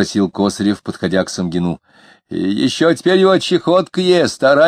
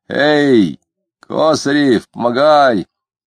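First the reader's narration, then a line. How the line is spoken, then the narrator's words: Blacksmith shouting. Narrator (Russian): крикнул кузнец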